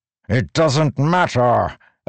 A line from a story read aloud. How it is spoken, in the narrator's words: Odium roared